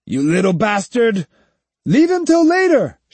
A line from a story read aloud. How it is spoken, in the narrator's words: shouted the other man